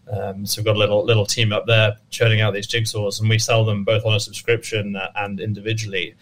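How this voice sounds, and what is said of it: English accent. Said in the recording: “my accent and me being from England”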